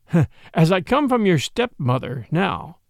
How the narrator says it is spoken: went on with a slight laugh

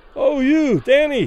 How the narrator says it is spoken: Those further away, unable to suppress their admiration, cried loudly

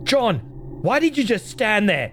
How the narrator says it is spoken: He shouted

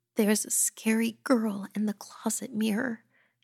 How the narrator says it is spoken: she whimpered

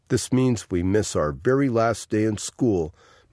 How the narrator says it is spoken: MacArthur said

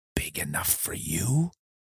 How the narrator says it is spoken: I barely whisper

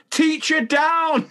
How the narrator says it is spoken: One of the kids could be heard running down the corridor shouting

